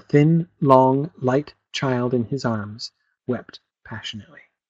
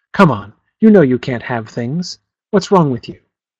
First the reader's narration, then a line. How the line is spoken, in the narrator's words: His voice was soft and shook as if he also was not far from tears